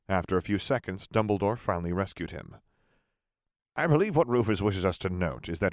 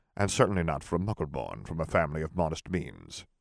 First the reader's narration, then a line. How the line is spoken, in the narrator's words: he muttered with a hint